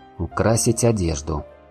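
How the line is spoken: Muttering under breath. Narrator (Russian): пробормотал я себе под нос

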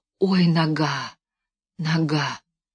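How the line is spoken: Frantic whisper. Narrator (Russian): шептал исступленно Левка

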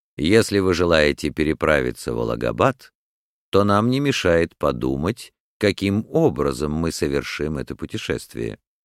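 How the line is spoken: Calm. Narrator (Russian): спокойно проговорил мистер Фог

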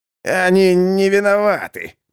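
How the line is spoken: Creaky voice. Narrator (Russian): проскрипел Мэнсон

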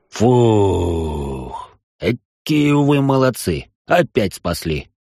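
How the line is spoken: Relieved exhale, grinning dwarf. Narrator (Russian): Выдохнул дворф и, лыбясь во весь щербатый рот

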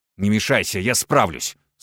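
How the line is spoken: Snapping retort. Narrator (Russian): снова огрызнулся он

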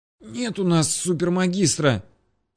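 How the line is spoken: Muffled hoarse boy. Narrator (Russian): просипел уткнувшийся лицом в парту парнишка

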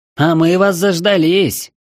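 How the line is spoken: Hoarse woman's shout. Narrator (Russian): Хрипло крикнула нам одна из 3 подошедших, высокая женщина с ником Сноу

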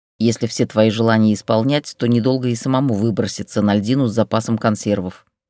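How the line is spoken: Grumbling. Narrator (Russian): проворчала Штукина

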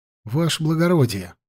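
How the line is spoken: Quiet address. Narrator (Russian): обратился тихонько к Куницыну Лёшка

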